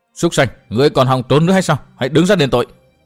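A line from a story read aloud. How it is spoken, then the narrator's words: Shout. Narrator (Vietnamese): Chàng hét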